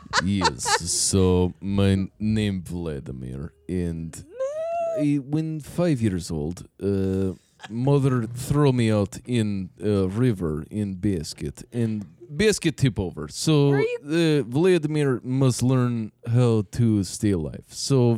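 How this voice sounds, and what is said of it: Put-on Russian accent. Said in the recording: “Russian. ... Is an accent I can do.”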